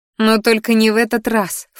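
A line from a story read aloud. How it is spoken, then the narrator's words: Snorting. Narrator (Russian): фыркнула я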